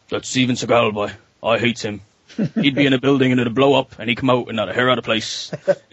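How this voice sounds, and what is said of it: Mumbly voice, strong Newfoundland accent. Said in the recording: “He's got this mumbly voice and he's got this really strong Newfoundland accent.”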